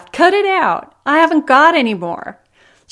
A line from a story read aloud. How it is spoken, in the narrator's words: laughed